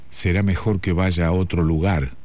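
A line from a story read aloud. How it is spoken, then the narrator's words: Waiter speaking low. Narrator (Spanish): dijo en voz baja el camarero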